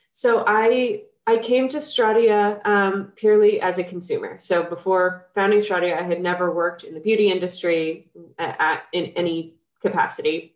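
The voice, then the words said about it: Nasal, congested voice. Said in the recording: “I've got a little bit of a cold, so if I sound kind of nasally,”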